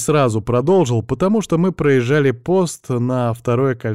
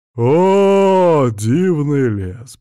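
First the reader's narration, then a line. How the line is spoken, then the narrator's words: Drawn-out speech. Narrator (Russian): протянул он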